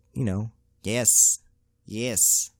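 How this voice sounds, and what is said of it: Put-on Asian accent. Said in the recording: “I shouldn't be doing Asian accents out here ... I'm sorry for the Asian accent”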